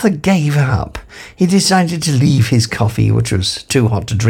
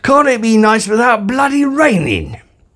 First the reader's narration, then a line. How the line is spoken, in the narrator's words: he almost spat